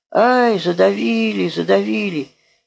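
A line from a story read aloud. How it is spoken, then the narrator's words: Frightened instinctive scream. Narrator (Russian): Я испугался за него и, закрыв лицо руками, закричал инстинктивно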